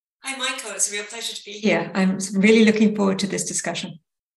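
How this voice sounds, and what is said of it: Non-American accent. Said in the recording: “you've got an accent that doesn't indicate you originated in the San Francisco Bay Area”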